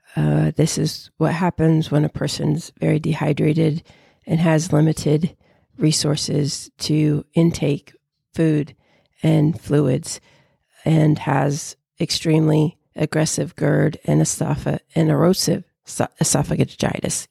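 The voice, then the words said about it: Froggy, hoarse voice. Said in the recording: “I am very sorry about my voice. I'm aware that it's very froggy.”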